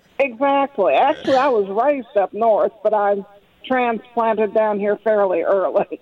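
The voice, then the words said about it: Kentucky Southern accent. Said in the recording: “that's as much of a Kentucky accent as I've ever heard”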